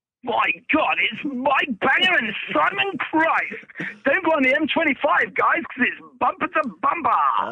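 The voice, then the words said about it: Radio DJ voice. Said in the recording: “I was going to try and work on a radio voice for you ... radio DJs ... you can't do that voice”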